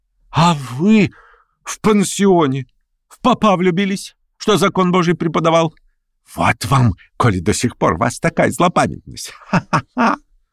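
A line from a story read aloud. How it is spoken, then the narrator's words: Bitter laughter, coughing. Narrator (Russian): Она желчно расхохоталась и раскашлялась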